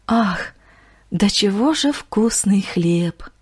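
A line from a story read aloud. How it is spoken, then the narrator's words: Sorrowful sigh, kind woman. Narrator (Russian): Горестно вздохнула сердобольная женщина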